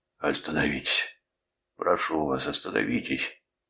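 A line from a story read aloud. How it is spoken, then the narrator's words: Man rasping. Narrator (Russian): прохрипел мужчина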